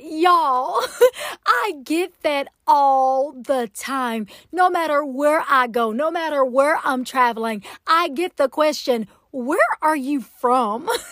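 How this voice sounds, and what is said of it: Southern US accent. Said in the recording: “Southern Belle behind the mic with such a distinctive accent? ... I am from Atlanta, Georgia. Can you tell? I am a true Southern Belle”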